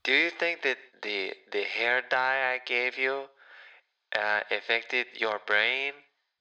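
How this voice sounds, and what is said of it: Put-on Hispanic telenovela accent. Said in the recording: “Where's the accent coming from? ... I'd never heard you speak with this accent ... I was just watching a telenovela. I can't believe that some Hispanic women actually talk like that.”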